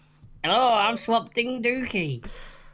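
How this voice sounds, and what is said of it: Cartoon character voice, Cornish-sounding. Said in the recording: “I could do the voice ... Oh, has he come from Cornwall?”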